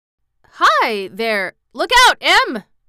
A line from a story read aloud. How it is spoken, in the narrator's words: exclaimed the old man